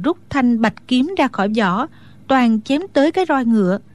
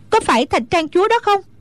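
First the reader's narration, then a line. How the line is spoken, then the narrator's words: Shouted. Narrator (Vietnamese): Hoa Vạn Tử la lên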